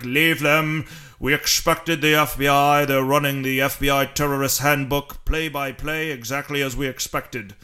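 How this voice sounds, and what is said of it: Poor German accent imitating Hans Gruber. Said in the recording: “Hans Gruber said in Die Hard ... my German accent sucks a little bit”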